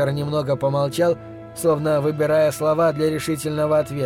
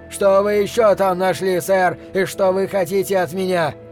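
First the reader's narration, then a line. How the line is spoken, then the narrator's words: Furious shout. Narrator (Russian): Вард бешено крикнул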